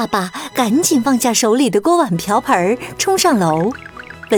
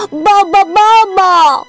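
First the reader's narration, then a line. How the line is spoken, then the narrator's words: Shouting. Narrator (Chinese): 文森特冲出房间喊道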